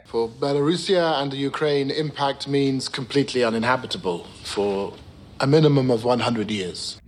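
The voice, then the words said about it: British accent. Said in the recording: “Why do they all speak in a British accent?”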